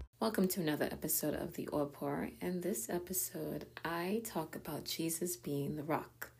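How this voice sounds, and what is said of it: Raspy, hoarse voice. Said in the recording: “my voice is a little bit raspy. I feel like I'm losing my voice”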